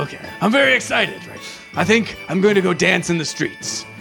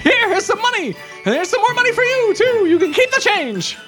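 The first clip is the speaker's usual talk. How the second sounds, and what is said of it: Unusually high-pitched excited voice. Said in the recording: “Why is your voice so high all of a sudden? ... I'm excited ... It's down here.”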